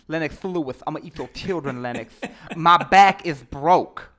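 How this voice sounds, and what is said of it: Bad gangster-style Mike Tyson impression. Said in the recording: “gave him kind of a gangster, like ... That was a bad bad impersonation”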